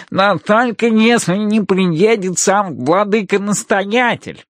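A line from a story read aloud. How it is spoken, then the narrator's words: Nasal voice. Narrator (Russian): добавляет гнусавый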